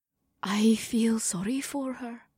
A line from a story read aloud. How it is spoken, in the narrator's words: Amber whispered